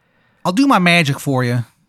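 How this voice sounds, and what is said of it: Character voice with terrible accent. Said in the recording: “His accent's terrible. ... Yeah, it sounds awful.”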